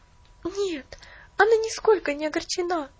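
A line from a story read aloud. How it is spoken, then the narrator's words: Agitated, interrupting. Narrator (Russian): взволнованно перебила ее Поллианна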